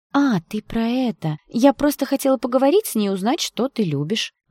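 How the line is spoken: Innocent chirping voice. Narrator (Russian): Невинным голоском прощебетала Шленская

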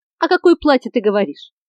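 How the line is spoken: Laughing. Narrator (Russian): рассмеялся Хейграс

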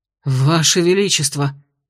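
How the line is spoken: Guard's breathless exclamation. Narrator (Russian): выдохнул один из стражей

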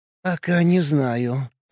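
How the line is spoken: Hoarse woman's voice. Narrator (Russian): ответила сиплым голосом женщина с красным лицом и большими глазами

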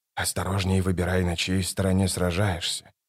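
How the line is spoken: Mumble. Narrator (Russian): пробормотал Крул

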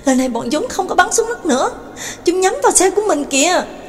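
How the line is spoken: Alarmed cry. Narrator (Vietnamese): Đường Mẫn kinh hãi kêu lên

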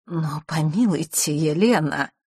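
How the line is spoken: Timid interjection. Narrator (Russian): робко вмешался Мандигор

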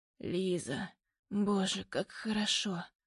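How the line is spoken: Hoarse, rasping. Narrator (Russian): хрипит Демьян

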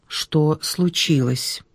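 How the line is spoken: Quiet, serious question. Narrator (Russian): тихо и серьезно спросил Алексей Сергеевич

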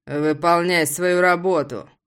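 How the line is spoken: Through gritted teeth. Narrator (Russian): Цежу сквозь зубы

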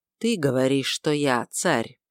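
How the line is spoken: Weary sighing reply. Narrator (Russian): Назарей устало вздохнул и ответил

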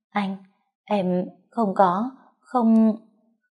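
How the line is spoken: Trembling, faltering murmur. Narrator (Vietnamese): Lòng tôi cơ hồ cũng run rẩy, môi tôi mấp máy

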